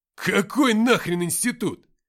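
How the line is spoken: Shouting. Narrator (Russian): крикнул Уфимцев

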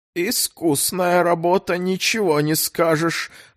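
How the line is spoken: Hoarse voice. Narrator (Russian): осипшим голосом произнес

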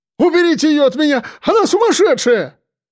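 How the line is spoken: Frightened yell. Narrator (Russian): испуганно заорал Харченко

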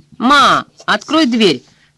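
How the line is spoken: Shouting. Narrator (Russian): крикнул Данкин

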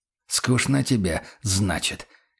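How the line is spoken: Hoarse rasp. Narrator (Russian): прохрипел капитан

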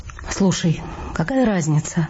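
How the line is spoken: Sighing, slightly lower pitch. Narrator (Russian): Я вздохнула и добавила на 0,5 тона ниже

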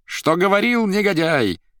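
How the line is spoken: Shrieking laughter. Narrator (Russian): визжала и хохотала Наташа

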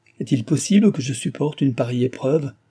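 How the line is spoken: Exclaimed. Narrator (French): s'écria Delville

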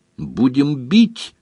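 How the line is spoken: Cheerful. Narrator (Russian): весело сказал Бонни

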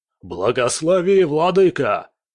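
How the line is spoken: Shouted. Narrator (Russian): один из них, самый здоровый, закричал

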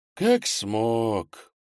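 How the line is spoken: Sighing. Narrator (Russian): вздохнул Немченко

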